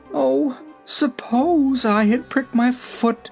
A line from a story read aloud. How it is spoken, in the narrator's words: she wailed